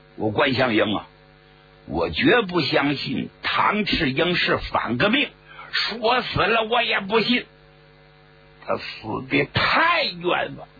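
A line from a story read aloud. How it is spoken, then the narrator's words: Angry shouting. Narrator (Chinese): 贺龙实在气不过呀，大喊大叫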